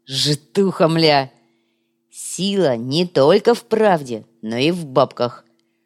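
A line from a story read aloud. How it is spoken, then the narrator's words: Stern. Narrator (Russian): строго сообщил коряга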